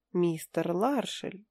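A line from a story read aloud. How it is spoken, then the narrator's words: Gentle, affectionate start. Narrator (Russian): ласково начала я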